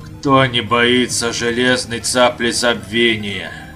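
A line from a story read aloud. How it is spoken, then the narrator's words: Moaning. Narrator (Russian): простонал Абер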